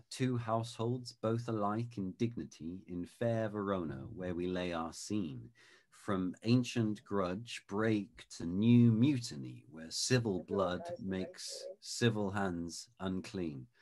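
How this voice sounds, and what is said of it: Queen's English British accent. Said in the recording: “Queen's English ... So this is in the Queen's English accent, as it were.”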